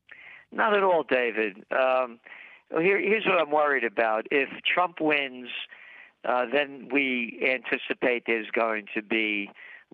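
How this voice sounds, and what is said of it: Funny accent. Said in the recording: “that guy with a funny accent, Gerald Celente”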